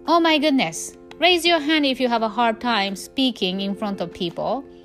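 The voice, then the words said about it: Non-native English accent. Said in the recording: “I have a freaking accent. ... I have accent ... You have like American accent.”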